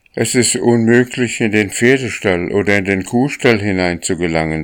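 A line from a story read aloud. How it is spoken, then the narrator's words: Plain. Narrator (German): sagte er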